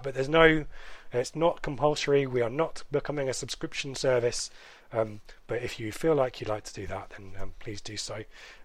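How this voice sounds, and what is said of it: Hoarse voice. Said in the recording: “I've spoken a lot. I'm hoarse.”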